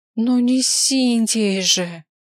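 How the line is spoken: Groaning. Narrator (Russian): Простонала я

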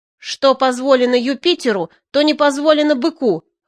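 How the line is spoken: Yelling. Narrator (Russian): вопила она в ответ

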